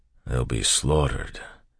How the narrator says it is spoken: Ham said very softly

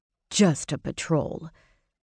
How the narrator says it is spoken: Sawyer muttered

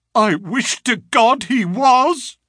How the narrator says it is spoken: he cried

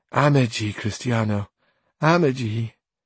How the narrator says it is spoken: she, sighing, her eyes still wet with tears, said again

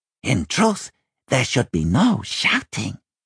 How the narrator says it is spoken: he whispered to a puzzled Simon

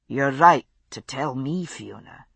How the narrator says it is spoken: he said very softly

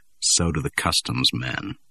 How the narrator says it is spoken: she said dryly

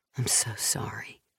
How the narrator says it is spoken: he whispered into her ear, a spoken word lullaby

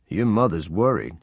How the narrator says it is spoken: he said

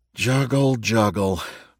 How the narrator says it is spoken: Bill muttered

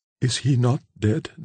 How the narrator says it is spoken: demanded Cora, in a voice whose husky tones showed how powerfully natural horror struggled with her assumed firmness

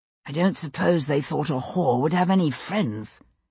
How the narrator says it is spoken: William said under his breath

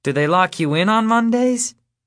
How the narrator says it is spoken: He laughs

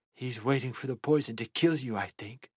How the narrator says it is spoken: she whispered

